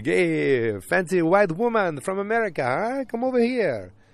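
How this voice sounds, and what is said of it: Put-on stereotypical Italian accent. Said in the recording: “stereotypical Italian guys ... I'm still doing accents.”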